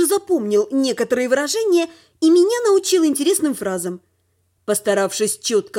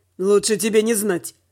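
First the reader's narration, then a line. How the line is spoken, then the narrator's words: Amused snort. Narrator (Russian): хмыкнул Дима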